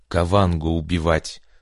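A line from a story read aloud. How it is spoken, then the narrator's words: Through gritted teeth. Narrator (Russian): процедил сквозь зубы Джек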